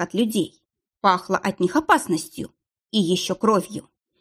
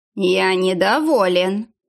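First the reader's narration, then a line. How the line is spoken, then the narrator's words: Menacing. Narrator (Russian): проговорил хозяин грозно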